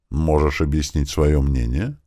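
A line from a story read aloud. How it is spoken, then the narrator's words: Calm question. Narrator (Russian): все так же спокойно задала вопрос Дуэнья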